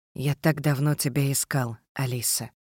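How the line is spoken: Whisper. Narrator (Russian): шепнул Джек

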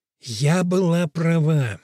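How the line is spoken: Lipless mouth, through teeth. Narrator (Russian): безгубым ртом процедила Чунга

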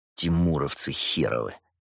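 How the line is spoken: Said angrily. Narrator (Russian): зло произнес Волков

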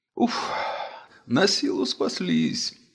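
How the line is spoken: Groaning. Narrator (Russian): простонала царица Мап, падая в свое любимое кресло

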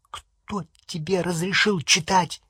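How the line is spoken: Whisper. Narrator (Russian): прошептала Петунья

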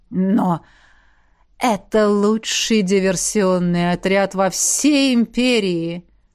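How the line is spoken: Insinuating, smooth tone. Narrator (Russian): вкрадчиво подметил Хуан

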